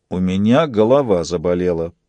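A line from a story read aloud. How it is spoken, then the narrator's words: Grumbling. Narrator (Russian): проворчал Фист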